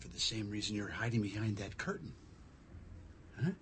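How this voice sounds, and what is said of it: Whispering. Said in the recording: “Why are you whispering? ... I'm whispering”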